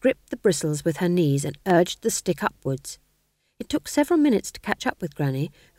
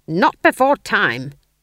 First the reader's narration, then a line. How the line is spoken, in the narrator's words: she snapped